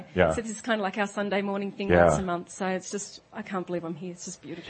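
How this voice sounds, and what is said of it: Australian accent. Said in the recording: “hearing her accent, I knew it was ... from Australia ... The accent.”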